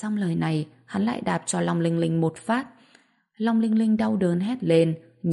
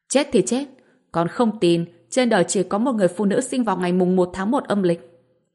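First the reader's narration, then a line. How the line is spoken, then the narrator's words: Angry shout. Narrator (Vietnamese): Vương Gia Tuấn giận dữ hét lên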